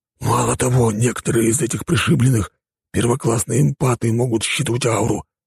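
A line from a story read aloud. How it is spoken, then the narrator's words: Whispered. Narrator (Russian): прошептал Рафик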